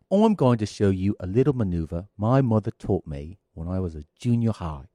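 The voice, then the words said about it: Australian accent. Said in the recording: “Speaking in Australian accent. ... He's doing an Australian accent.”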